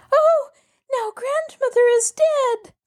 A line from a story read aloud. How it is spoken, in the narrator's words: She broke down and cried, for she thought everything she read about was actually taking place